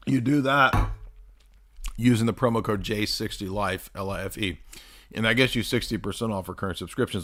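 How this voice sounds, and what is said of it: Strained, hoarse voice. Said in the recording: “I've been talking so much, I'm losing my voice.”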